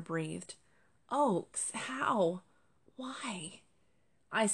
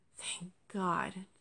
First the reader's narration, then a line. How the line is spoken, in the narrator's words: Jasper sighed